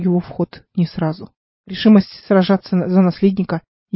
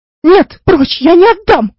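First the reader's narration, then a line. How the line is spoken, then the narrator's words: Desperate wailing. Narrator (Russian): вопила она в отчаянии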